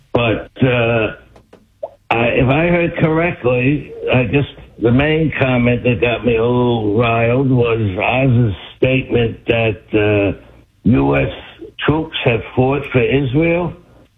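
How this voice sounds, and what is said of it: Local Central Texas accent. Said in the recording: “Sound like you're from Cedar Park... The accent, I guess you can tell.”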